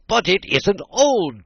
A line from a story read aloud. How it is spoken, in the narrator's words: Tweedledum cried, with a fury greater than ever